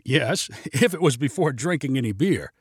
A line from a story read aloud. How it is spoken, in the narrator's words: replied a chuckling Winston